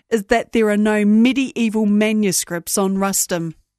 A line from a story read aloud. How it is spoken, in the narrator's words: said the officer beside him dryly